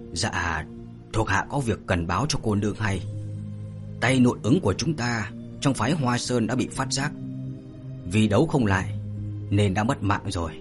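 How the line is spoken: Hoarse reply. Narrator (Vietnamese): tiếng khàn khàn của Điền Thất đáp

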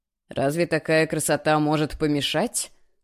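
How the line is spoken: Amused snort. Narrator (Russian): хмыкнул

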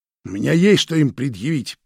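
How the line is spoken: Hoarse wheeze. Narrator (Russian): просипела Надежда Денисовна

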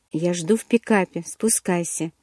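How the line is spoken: Whisper. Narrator (Russian): прошептал

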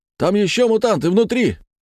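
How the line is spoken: Barked shout. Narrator (Russian): гаркнул кто-то из башенки с пулеметом

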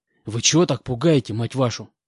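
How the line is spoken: Hiss. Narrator (Russian): прошипел я

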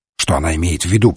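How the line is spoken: Muttered. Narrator (Russian): пробормотал Жюф

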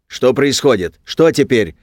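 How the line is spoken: Loud barking shout. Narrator (Russian): гаркнул святой Михаил

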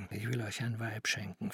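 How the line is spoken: Whisper. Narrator (German): flüsterte er

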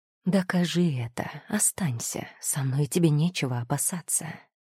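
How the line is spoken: Whisper. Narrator (Russian): прошептал он

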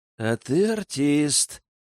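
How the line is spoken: Gritted from mouth corner. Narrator (Russian): процедил уголком рта Аркан

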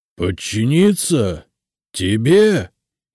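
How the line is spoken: Rattling creature roar. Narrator (Russian): проревел на весь овраг дребезжащий голос существа

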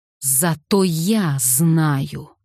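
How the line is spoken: Growled. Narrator (Russian): прорычал Майкл

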